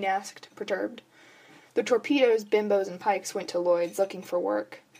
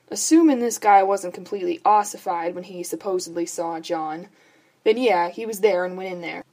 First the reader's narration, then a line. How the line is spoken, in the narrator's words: Bobby sighed